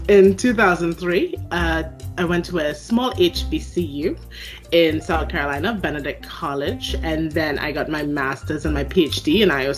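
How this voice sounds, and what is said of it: Trinidadian Caribbean accent. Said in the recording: “I have an accent that people hear that I don't hear ... I am originally from Trinidad and Tobago in the Caribbean”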